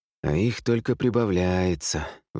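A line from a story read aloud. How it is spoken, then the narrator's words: Long sigh. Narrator (Russian): вздохнул Ник протяжно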